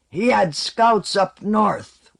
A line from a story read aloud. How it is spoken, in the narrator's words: Wold roared back